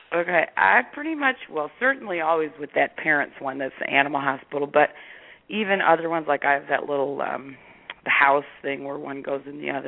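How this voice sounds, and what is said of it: Rough, worse-than-usual voice. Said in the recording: “I just woke up not long ago, so my voice is even worse than usual”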